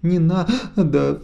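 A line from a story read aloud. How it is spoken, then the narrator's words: Sobbing. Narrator (Russian): всхлипывает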